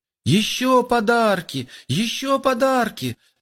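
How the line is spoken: Excited joyful children. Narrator (Russian): радостно запрыгали вокруг мамы малыши

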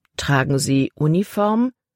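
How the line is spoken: Plain question. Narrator (German): fragte Caleb

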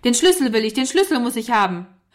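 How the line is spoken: Frantic shouting. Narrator (German): rief ganz außer sich

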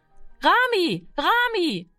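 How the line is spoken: Calling out. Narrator (German): rief sie

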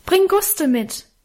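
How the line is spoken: Call after. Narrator (German): rief ich ihm in die Dunkelheit nach

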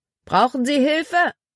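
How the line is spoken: Called out. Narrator (German): Er rief einem Rothemd zu

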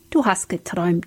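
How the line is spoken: Gentle. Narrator (German): sagte Philipp sanft

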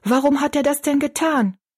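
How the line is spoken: Calling out. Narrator (German): rief Betty Ann

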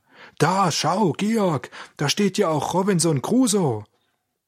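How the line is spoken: Calling out. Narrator (German): Auf einmal rief er

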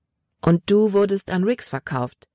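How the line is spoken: Plain question. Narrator (German): fragte Libby

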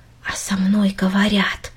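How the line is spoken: Quiet repetition. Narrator (Russian): тихо повторила Минори

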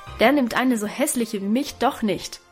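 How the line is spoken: Crying out. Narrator (German): rief Guste dabei

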